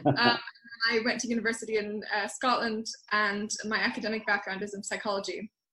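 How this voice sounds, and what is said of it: American accent. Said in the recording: “The American accent is a bit deceiving”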